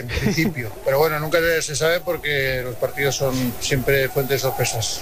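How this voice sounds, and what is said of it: Strong Aragonese (maño) accent. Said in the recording (Spanish): “Me ha salido acento mañito... Pero mucho, bastante.”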